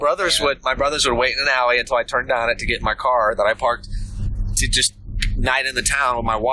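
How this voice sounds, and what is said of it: Usual voice. Nothing is said of it.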